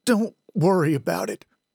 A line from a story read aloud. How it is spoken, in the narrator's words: stammer out